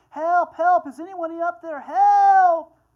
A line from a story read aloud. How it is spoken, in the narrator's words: He yelled for a long time